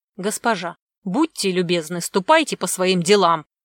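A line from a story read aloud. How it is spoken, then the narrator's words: Rude reply. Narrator (Russian): как-то грубо ответил ей торговец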